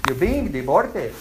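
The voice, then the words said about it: Put-on Pakistani accent. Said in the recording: “The Pakistani accent.”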